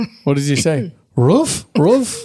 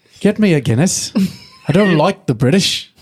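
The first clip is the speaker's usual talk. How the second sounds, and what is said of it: Bad Irish accent drifting British. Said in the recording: “Terrible. Terrible Irish accent ... Kind of went into a British accent there.”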